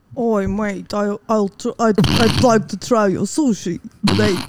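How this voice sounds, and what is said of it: Attempted English accent. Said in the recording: “English accent”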